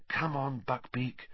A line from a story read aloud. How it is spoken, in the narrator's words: Harry murmured